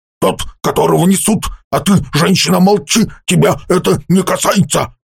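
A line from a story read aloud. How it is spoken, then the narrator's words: Several men snapping. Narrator (Russian): огрызнулись горцы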